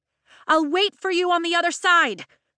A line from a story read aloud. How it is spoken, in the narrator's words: she shouts over the storm